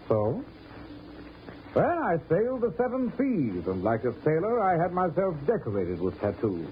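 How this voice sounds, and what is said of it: British accent. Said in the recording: “With a British accent?”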